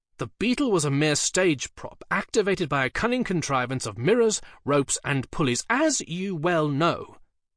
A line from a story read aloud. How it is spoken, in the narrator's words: said Dee testily